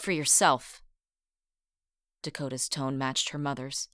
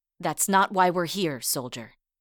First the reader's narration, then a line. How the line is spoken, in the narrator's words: Rosie replied in a stern voice